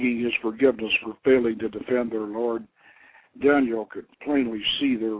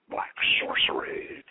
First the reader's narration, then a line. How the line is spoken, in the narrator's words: King Daniel growled